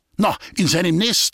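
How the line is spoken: Shouted. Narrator (German): schrie Walter Sack

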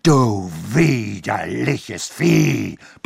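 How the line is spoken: Roaring threat. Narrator (German): brüllte er von dort aus

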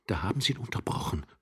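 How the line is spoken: Grinding young man's whisper. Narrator (German): flüsterte der junge Mann knirschend

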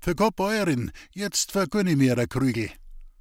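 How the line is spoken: Calling into kitchen. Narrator (German): rief er noch in die Küche

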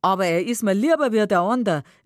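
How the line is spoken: Laughing reply. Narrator (German): erwidert dieser lachend

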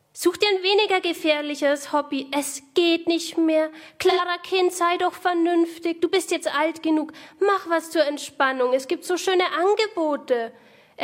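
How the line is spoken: Loud mocking imitation. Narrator (German): äfft ihre Mutter laut nach

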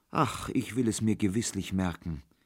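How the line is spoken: Sighing reply. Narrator (German): erwiderte Kohlenpeter seufzend

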